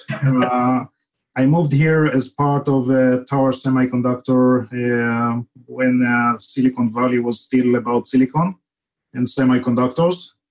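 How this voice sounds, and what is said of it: Israeli accent. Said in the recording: “grew up in Israel, as you can detect from the accent.”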